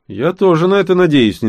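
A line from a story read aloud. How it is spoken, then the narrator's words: Unenthusiastic reply. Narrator (Russian): не слишком радостно отозвалась Нори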